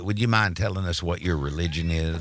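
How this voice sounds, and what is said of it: Lindsey Graham impression. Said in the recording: “great Lindsey Graham impression.”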